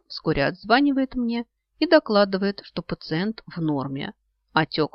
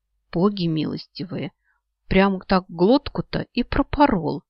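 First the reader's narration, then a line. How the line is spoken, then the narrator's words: Woman muttering tremulously. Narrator (Russian): бормочет орешница дрожащими губами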